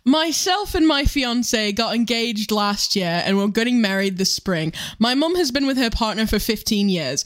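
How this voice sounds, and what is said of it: Put-on British accent. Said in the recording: “It sounds like this person is British, yeah. So I'm going to do an accent.”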